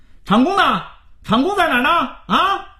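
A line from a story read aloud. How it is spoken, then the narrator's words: Young man shouting loudly. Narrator (Chinese): 一个头目状的年轻人冲在场的人大声嚷嚷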